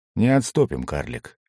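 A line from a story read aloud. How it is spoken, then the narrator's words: Quiet. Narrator (Russian): тихо произнес Алистан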